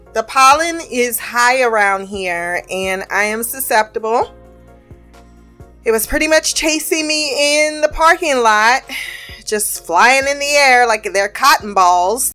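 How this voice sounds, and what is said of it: Slightly nasal, congested voice. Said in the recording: “I sound a little nasally ... my nasal passageways are on the fritz”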